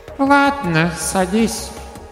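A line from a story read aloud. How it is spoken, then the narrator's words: Squeaky voice. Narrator (Russian): пропищал Гавриил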